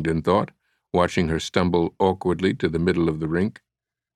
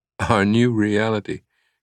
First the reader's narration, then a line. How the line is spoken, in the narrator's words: Catherine said with a laugh